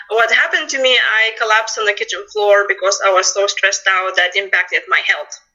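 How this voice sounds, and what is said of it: Lithuanian accent. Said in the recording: “as you can tell from my accent, I'm not local. I'm originally came from Lithuania”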